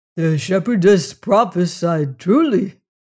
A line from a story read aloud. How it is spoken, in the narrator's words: cried Otter presently